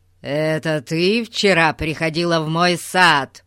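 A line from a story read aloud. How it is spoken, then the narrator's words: Growling. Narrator (Russian): зарычал он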